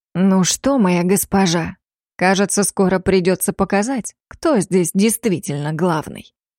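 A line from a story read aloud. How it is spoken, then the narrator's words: Hissing. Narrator (Russian): Раздалось шипение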